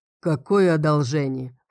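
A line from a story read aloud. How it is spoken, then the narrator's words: Scoffing snort. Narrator (Russian): фыркнула Гленна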